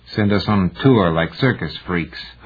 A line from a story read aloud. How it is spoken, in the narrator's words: Heinemann grumbled